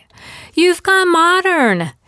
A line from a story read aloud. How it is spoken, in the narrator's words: she squealed